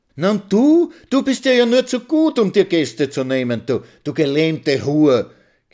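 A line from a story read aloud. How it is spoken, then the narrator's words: Shrill melodious little voice. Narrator (German): kreischt Mitzi mit ihrem melodiösen Stimmchen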